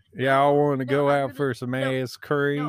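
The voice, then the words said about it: Put-on southern accent. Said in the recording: “we're gonna play Among Us in a southern accent.”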